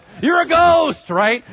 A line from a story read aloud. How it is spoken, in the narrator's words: They start yelling